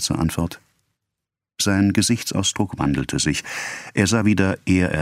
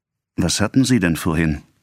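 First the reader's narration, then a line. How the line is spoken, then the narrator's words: Plain. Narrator (German): fragte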